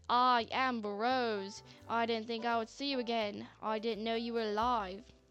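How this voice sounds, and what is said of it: Shifting Scottish, mid-Atlantic, Australian accent. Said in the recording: “with his accent, it sounded more like ... it sounds a bit Scottish at first, then it's mid-Atlantic, then it's New York, then it's just straight-up Australian”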